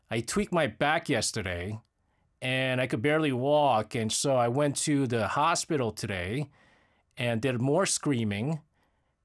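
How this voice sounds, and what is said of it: Hoarse voice. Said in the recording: “my voice is a little bit hoarse ... I was doing a lot of shouting”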